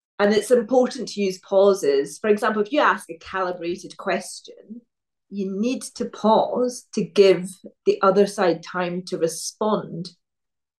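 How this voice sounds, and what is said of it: Regional accent, naturally slow speech. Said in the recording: “Because of where I grew up, my accent, I naturally speak slowly”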